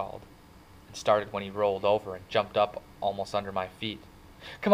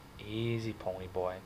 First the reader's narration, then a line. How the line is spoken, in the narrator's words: he said softly